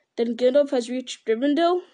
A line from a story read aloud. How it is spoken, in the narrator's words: cried Frodo joyfully